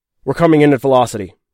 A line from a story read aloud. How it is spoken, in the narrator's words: he said